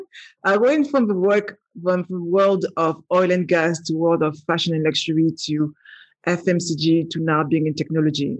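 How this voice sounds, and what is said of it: Strong French accent. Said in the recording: “I still have that very strong French accent.”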